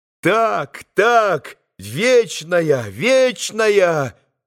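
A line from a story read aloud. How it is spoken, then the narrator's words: Boys' ringing chorus shouting. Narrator (Russian): прокричали все мальчики своими звонкими голосами с умилёнными лицами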